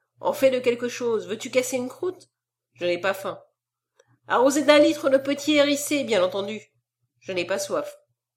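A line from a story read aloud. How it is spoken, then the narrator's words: Light tone. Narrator (French): reprit-il d'un ton léger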